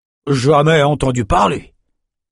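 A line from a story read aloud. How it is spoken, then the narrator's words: Muttering. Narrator (French): marmonna le berger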